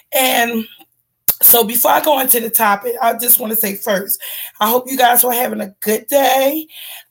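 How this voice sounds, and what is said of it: Cranky, rough-sounding voice. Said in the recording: “my voice is so cranky”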